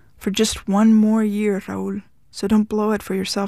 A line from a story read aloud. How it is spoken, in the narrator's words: she said